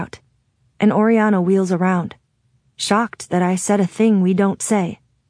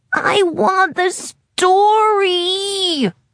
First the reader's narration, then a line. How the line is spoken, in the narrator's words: Oak whines, sounding confused